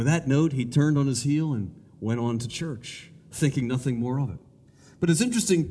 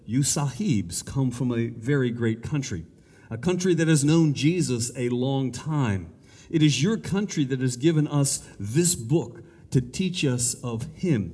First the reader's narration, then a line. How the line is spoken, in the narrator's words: he said